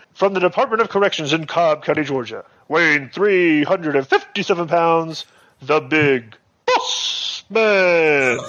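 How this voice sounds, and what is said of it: Ring announcer impression. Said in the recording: “I do a great impression of Howard Finkel. Do you want to hear my Howard?”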